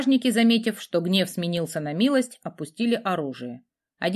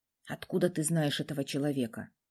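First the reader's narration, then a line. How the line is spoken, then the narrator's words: Asked quietly. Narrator (Russian): тихо спросил Радомир у принцессы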